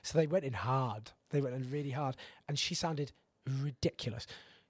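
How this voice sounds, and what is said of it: Hoarse, strained voice. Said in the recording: “I've lost my voice”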